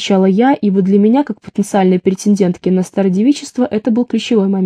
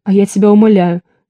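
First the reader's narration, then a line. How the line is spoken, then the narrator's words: Laughing. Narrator (Russian): смеялась Света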